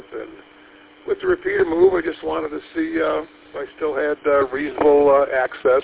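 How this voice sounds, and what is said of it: Slightly raspy voice. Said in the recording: “I guess my voice is a little bit raspy”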